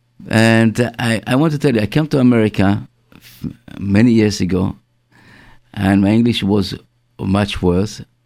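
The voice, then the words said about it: Israeli-accented English. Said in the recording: “my English is not perfect ... my pronunciation is very bad. I learned in England, but I cannot take off my Israeli accent.”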